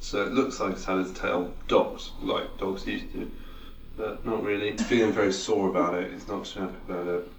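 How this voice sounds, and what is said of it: Flat, monotone, tired voice. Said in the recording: “your monotone voice ... Bit tired now ... deflated now”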